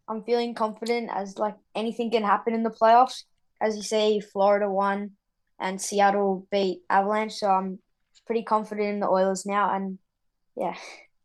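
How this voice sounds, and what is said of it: Australian accent. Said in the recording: “a hockey conversation with uh, with an Australian accent”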